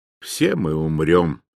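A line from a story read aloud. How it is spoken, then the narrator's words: Plain. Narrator (Russian): сказала она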